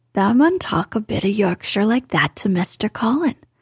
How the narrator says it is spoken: Dickon chuckled

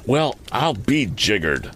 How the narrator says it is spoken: exclaimed the youth

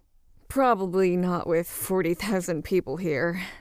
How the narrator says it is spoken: sighed Koss

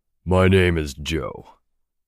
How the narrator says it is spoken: the man on the stage said, his voice deep and thunderous

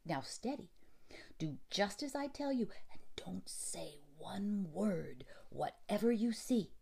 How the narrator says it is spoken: answered Nursie, quite quivering with excitement

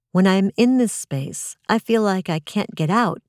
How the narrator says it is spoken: she says

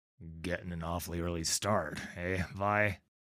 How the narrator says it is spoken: He grumbles, pawing sleep from his eyes

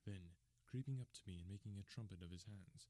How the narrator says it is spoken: he whispered into my ear again so gently that it was all that I could do to distinguish the words

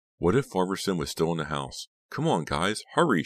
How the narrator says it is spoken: pleaded

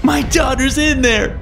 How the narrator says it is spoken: I screamed

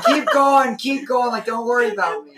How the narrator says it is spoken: I kept yelling

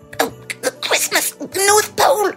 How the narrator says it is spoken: He stuttered

